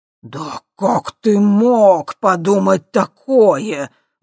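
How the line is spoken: Indignant exhale. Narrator (Russian): возмущенно выдохнул Ипполит Германович

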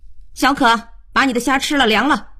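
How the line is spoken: Loud calling. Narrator (Chinese): 高声叫

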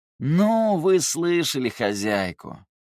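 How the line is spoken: Lazy drawl. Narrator (Russian): лениво протянул Терций

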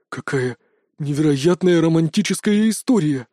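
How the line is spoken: Spellbound breathy exhale. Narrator (Russian): Завороженно глядя на Настю, выдохнул Толик

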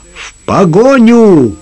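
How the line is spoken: Shouted. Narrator (Russian): крикнул Лукас

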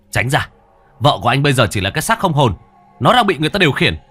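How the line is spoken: Shout. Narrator (Vietnamese): Hải quát

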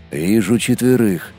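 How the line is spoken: Barely audible. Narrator (Russian): едва слышно сказал Молот

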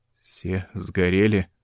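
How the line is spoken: Strained, forced out. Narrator (Russian): с трудом выдавил Джонас

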